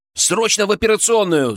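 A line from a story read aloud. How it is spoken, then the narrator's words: Echoing yell. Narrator (Russian): заорал я, и мой голос эхом разнесся по тихой палате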